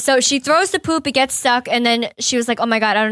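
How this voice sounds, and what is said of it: Usual voice. Nothing is said of it.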